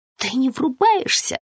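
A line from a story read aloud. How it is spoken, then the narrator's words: Hiss. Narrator (Russian): прошипела Бихар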